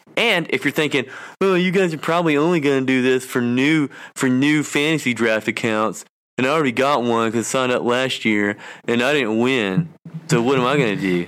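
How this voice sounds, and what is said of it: Whiny voice. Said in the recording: “You're all about the whiny voice tonight.”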